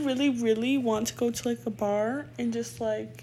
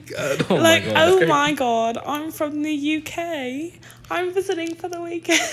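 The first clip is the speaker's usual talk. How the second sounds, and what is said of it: Put-on British accent. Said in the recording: “pretend I have a British accent and see if it's like good enough”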